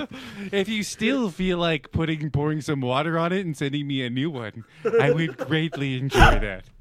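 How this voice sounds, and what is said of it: Creepy put-on character voice. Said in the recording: “That's a new voice for. That's a new voice for ... What is that voice? ... This creepy is you when fucking you were in high school.”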